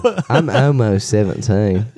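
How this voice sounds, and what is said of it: Bad Russell Brand London accent. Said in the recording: “new character voice ... it's just a shitty Russell Brand ... I talk like I'm from London”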